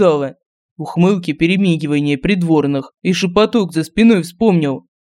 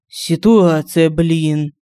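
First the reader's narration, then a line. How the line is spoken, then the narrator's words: Sigh. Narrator (Russian): вздохнул Семен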